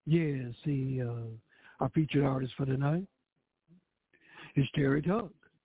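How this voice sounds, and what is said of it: Smooth jazz radio voice. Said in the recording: “put on my jazz voice.”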